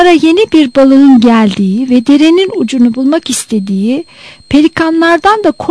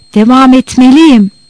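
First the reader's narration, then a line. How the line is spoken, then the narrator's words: Determined voice. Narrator (Turkish): Kararlı bir sesle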